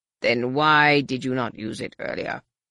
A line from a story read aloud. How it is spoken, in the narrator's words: the Supreme Overlord rumbled